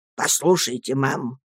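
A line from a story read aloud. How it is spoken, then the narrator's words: Calm, measured old man. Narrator (Russian): спокойно и с расстановкой проговорил старый рыбак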